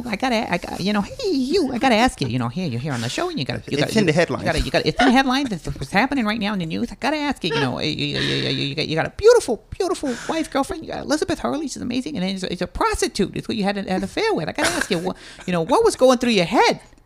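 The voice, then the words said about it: Jay Leno impression. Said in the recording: “your Jay Leno asking Hugh Grant about that impersonation”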